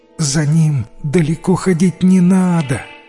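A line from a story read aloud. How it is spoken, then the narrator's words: Wife's moan. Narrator (Russian): простонала жена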